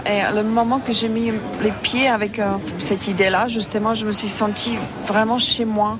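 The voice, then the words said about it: Non-native accent in French, slow speech. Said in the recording (French): “Je parle pas bien français, j'ai mon accent, ... je parle doucement”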